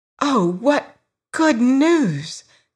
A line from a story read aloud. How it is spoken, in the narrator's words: cried the girl